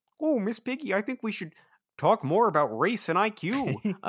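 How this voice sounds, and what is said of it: Kermit the Frog character voice. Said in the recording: “doing a Kermit impression, explicitly a Kermit impression ... I'm already up there in the inflection.”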